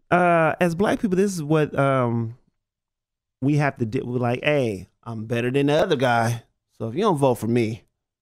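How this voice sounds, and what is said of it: Exhausted, weary-sounding voice. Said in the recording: “why I sound so exhausted”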